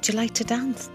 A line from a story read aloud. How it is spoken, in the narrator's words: someone whispered into my ear softly